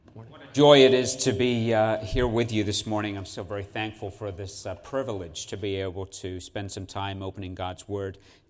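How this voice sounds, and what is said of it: Faint English Cornish accent. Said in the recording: “he's not from around these parts. He grew up in England, Cornwall area, I believe. And so you'll hear that a little bit, although he says that some of his accent now has been gone, but you'll be able to pick it up still a little bit”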